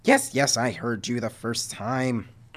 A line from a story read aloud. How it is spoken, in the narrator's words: Nuka grumbled